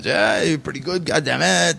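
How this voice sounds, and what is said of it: French-accented impression of Pat Patterson. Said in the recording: “in the French accent”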